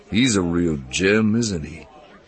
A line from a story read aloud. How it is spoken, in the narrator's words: Lando grumbled